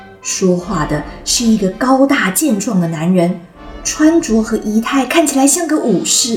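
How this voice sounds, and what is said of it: Usual voice. Nothing is said of it.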